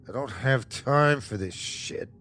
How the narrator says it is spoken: Keith muttered

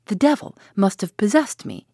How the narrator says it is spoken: exclaimed

